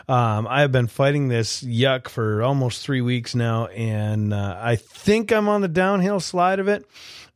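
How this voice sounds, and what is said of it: Voice not fully recovered, strained. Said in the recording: “as you can probably tell, once again, my voice is still not quite 100% back”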